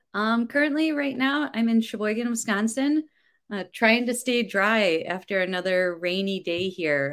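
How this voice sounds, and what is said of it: Slight Wisconsin accent. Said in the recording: “I hear a small accent. Are you a Wisconsin native? ... I've definitely apparently picked up this accent”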